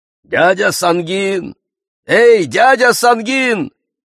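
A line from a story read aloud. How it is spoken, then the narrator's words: Shouted. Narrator (Russian): закричал Джав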